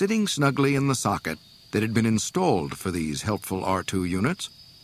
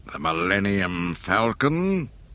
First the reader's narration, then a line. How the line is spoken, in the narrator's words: Vader snarled through his mask